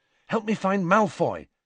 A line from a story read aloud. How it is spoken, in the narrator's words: said Harry urgently